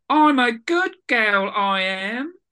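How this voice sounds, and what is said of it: Approximated Eliza Doolittle accent. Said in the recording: “that's my approximation of the accent ... That could have been a Scouse one, by the way.”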